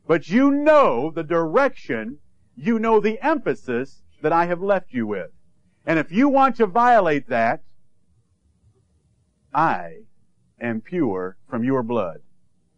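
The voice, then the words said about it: Intense, forceful preaching delivery. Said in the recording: “you sound awful angry this morning. ... Oh, I just sound intense. I don't sound angry. I'm just intense”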